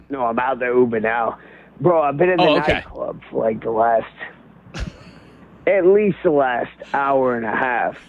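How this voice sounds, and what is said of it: Drunk-sounding voice. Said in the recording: “You sound like your voice is a little bit hammered”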